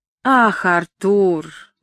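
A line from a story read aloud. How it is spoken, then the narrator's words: Disappointed drawl. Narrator (Russian): разочарованно протянула Гетти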